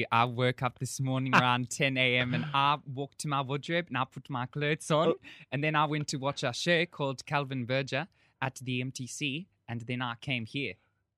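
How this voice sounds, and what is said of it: Put-on South African accent. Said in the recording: “I think that is South African. ... How did you get to know how to do South African?”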